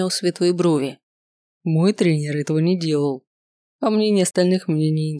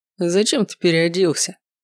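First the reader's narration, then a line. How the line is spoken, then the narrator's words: Mocking question. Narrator (Russian): насмешливо спросил Ривиан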